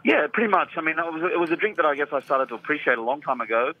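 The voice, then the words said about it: Australian accent. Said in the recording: “your accent, because you're... Well, you're Australian.”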